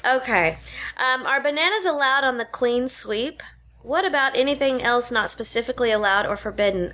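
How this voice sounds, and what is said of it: Speaks with a lisp. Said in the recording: “I have a lisp today ... it's fancy”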